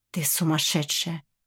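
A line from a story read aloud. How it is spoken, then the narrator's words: Breathed out. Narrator (Russian): выдохнул он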